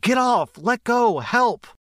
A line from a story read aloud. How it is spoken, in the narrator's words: she was screaming in my ear